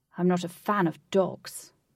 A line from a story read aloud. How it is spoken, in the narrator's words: Blue growled